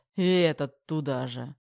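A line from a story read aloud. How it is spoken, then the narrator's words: Through gritted teeth. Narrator (Russian): процедил Терех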